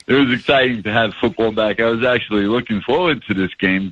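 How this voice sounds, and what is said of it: New York accent. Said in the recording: “with the New York accent.”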